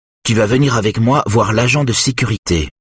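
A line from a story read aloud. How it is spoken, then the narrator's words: Determined tone. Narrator (French): dit-elle d'un ton déterminé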